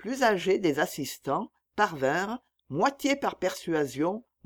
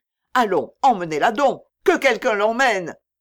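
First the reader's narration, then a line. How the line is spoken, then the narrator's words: Curt. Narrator (French): dit Hélé sèchement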